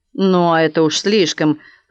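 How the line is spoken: Growl. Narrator (Russian): прорычала Матрона

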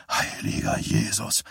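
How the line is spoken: Hoarse voice. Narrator (German): mit heiserer Stimme

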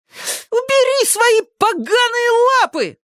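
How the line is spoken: Furious shriek. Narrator (Russian): завизжал Зак-потрошитель, яростно

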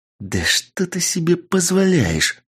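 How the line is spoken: Hissing noblewoman. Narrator (Russian): зашипела маркиза

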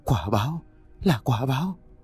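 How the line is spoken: Old woman's fearful mumbling. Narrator (Vietnamese): Bà cụ liên tục lẩm bẩm

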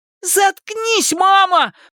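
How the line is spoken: High shrill shout. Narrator (Russian): прокричал Эдди высоким пронзительным голосом

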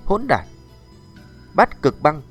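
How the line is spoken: Low muffled shout. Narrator (Vietnamese): Một tiếng quát trầm muộn khẽ vang lên

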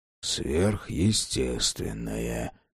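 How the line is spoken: Quiet speech. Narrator (Russian): тихо сказал Джек

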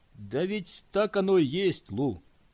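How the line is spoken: Sad voice. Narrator (Russian): печально произнес он

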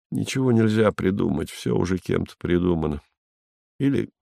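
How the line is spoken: Sad. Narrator (Russian): сказал грустно

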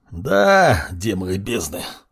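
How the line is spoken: Growl. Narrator (Russian): рыкнул Маркус

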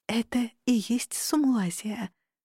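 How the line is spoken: Awed whisper. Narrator (Russian): благоговейным шепотом выдохнула

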